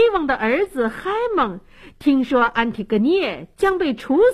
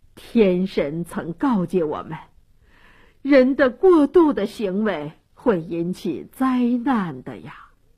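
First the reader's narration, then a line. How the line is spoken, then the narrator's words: Sighing elders. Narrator (Chinese): 这些长老都叹息地说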